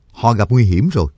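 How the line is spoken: Stern voice. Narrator (Vietnamese): Cương Nhật Phổ Bạc nghiêm giọng nói

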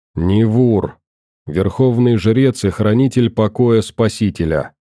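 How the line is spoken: Monotone reply. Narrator (Russian): ответил он монотонным голосом, при этом сильно напоминая Курта

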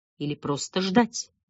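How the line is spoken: Muttered. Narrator (Russian): пробормотал Торренс

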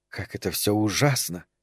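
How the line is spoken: Quiet. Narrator (Russian): тихо сказала Регина Герберту

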